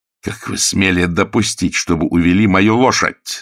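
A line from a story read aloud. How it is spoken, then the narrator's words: Furious shout. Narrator (Russian): закричал он в ярости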